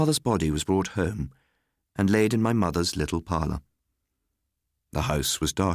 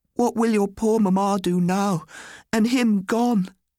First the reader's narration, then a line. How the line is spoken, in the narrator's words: she cried